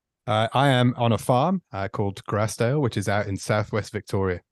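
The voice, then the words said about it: Faint English Midlands accent. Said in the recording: “I can hear a faint accent... I'm from Stoke on Trent in the Midlands in uh, in England”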